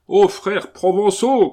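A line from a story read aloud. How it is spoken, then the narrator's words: Shouting. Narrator (French): cria-t-il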